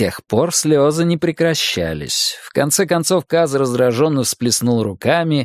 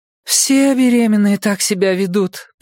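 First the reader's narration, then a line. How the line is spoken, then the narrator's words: Moaning. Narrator (Russian): простонала Нина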